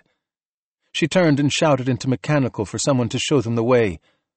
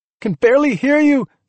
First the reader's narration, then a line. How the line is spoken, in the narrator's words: she yelled